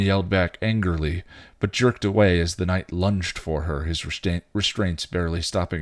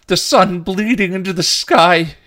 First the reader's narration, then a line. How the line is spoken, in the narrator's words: He cried